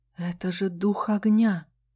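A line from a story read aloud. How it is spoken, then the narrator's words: Soundless breath. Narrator (Russian): беззвучно выдохнула я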